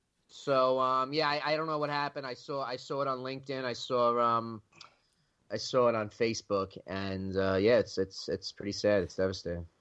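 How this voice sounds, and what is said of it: New York accent. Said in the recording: “You definitely got that New York accent.”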